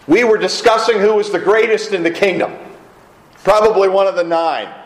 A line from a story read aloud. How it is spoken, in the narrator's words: someone blurts out